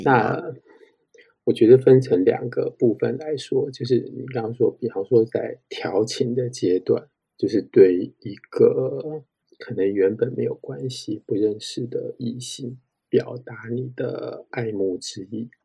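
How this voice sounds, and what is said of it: Suddenly quiet, whisper-like voice. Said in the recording (Chinese): “你不用讲调情的时候就把脸移开麦克风，像讲悄悄话这样 ... 他们只会觉得怎么突然变得这么小声”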